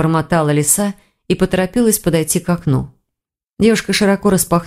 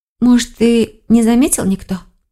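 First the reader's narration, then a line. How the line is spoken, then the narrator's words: Hopeful sigh. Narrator (Russian): с надеждой вздохнула Келлер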